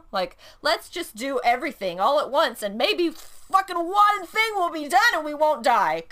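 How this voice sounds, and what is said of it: Loud, yelling voice. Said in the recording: “I'm trying to back away from the microphone because I'm yelling.”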